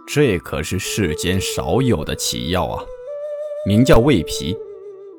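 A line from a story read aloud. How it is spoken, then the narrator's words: Admiring exclamation. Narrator (Chinese): 掌柜的看后连连赞叹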